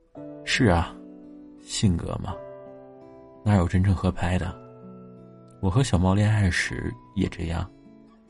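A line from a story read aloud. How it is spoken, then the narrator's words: Sympathetic sigh. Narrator (Chinese): 老虎感同身受的叹息说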